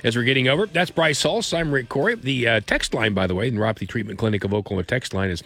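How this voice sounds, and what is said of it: Congested, nasal voice. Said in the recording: “Pardon the voice. It probably sounds a little different. It's the cold that I have in my nose.”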